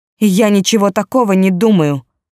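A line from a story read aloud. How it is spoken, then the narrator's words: Angry. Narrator (Russian): сердито сказала она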